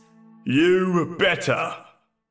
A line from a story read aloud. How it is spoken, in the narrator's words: my father shouting from the kitchen